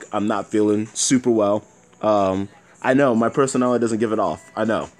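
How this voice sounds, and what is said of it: Nasal voice from illness. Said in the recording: “I sound super nasally today, it's because I'm sick”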